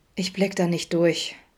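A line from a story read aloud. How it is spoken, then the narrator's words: Sighing. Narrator (German): seufzte Vincent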